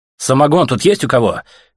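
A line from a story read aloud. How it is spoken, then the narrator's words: Ragged shout. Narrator (Russian): крикнул Артем драным джунглем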